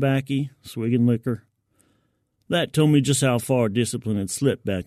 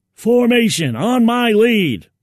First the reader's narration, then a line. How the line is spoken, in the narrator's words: he yelled